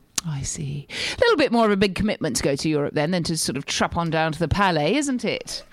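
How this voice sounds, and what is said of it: English accent. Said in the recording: “get rid of the accent ... nothing more exotic than an English accent”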